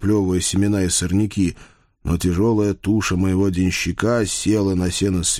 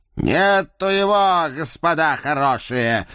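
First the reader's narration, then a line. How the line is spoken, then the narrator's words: Loud shout. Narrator (Russian): громко прокричал он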